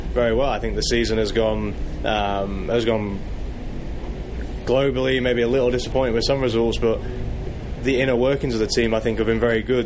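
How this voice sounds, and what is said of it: English accent. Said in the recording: “your accent is, are you from Massachusetts? No, I'm kidding. You come from England”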